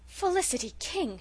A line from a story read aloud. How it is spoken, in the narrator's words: she exclaimed